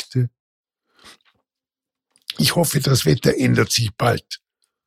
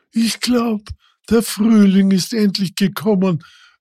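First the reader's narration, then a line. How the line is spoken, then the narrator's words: Giant calling out. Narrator (German): rief der Riese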